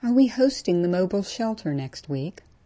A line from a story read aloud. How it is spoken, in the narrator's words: Tony sighed